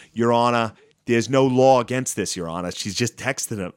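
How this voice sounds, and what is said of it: Put-on Boston accent. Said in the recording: “they all have this like Boston accent.”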